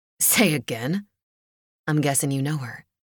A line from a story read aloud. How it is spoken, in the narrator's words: Beck said, trying to keep his voice even